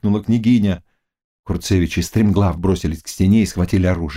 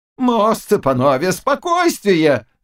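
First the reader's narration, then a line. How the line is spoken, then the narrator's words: Shouting. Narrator (Russian): закричал Заглоба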